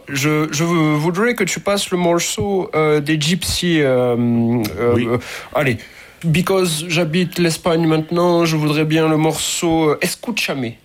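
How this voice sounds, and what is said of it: Put-on English accent in French. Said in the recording (French): “je vais reprendre mon accent anglais”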